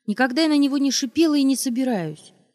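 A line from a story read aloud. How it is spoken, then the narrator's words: Shout. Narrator (Russian): крикнула она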